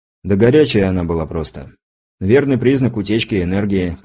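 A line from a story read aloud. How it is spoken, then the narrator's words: Explaining with a sigh. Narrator (Russian): пояснил я и вздохнул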